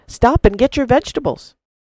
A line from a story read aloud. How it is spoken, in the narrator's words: cried the farmer